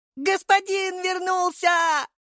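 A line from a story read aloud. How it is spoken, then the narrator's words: Shouted. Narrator (Russian): закричала Галя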